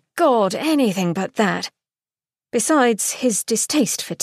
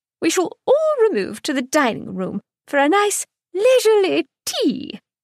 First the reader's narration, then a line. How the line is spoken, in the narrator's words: York chirped